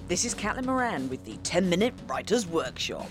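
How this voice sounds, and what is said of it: Formal announcer-style voiceover voice. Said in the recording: “Is that the official voice? I'm doing it in my official voiceover voice”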